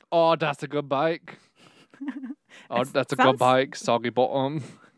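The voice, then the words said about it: Exaggerated British accent, slightly Australian. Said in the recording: “I just slid into my Great British Bake Off accent, which is exaggerated ... Sounds a little more Australian the first time you said it.”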